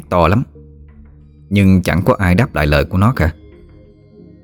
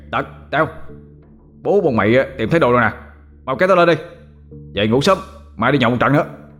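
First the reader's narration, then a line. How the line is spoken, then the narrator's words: Joyful shout. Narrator (Vietnamese): Nó mừng trở hét lên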